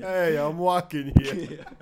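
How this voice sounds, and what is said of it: Put-on New York accent. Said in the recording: “New York accent”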